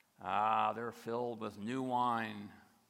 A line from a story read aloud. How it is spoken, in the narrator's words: others sneered and said